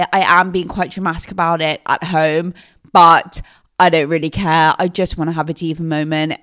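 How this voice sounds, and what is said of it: Congested voice from a cold. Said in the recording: “I have a cold, so if I sound a bit weird”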